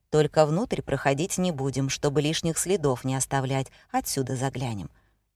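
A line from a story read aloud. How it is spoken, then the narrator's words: Calm voice. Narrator (Russian): уже спокойным голосом произнес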